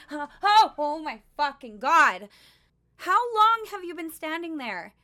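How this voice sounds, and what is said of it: Yelling. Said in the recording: “why am I yelling?”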